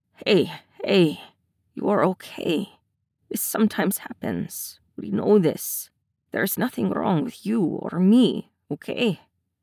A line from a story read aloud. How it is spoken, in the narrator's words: Ilya's voice is soft but firm